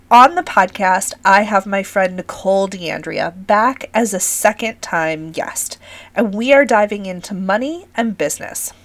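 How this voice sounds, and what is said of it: Scratchy, raspy voice. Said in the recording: “my voice is scratchy on the best of days from years and years of projecting my voice in crowded yoga spaces ... my first ever bout of COVID ... my voice is a little bit raspy”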